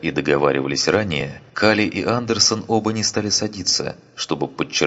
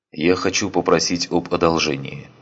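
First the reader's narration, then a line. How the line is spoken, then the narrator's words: Plain. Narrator (Russian): сказал Андерсон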